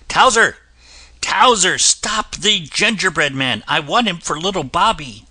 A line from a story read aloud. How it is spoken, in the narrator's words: the cook called out